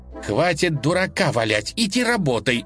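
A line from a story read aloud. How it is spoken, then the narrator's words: Angry. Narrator (Russian): сердито сказала Лиза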